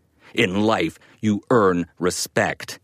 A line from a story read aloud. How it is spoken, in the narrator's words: growled